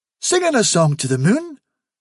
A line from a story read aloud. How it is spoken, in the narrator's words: said Hufsa eagerly